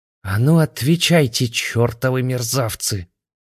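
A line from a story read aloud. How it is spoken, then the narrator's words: Vicious hiss. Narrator (Russian): Злобно прошипела заклинательница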